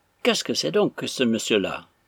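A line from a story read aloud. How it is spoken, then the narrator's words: Loud, stern, indignant. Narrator (French): dit tout haut et d'un ton sévère Arthur, dont les yeux indignés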